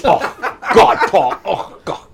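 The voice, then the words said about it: Imitates another person's voice. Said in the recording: “doing a Barry impression ... I'm doing my impression of Paul doing me.”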